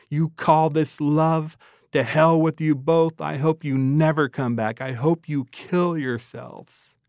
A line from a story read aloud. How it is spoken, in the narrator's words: He screamed